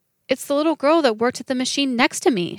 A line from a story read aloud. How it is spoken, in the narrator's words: cried